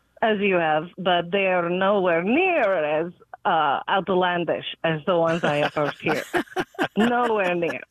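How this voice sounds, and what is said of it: Speaks with a foreign accent. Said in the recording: “I'm hearing an accent”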